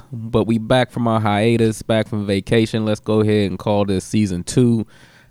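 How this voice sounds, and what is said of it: Raspy, slightly congested voice. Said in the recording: “Excuse my raspy voice. I got a bit of the sniffles”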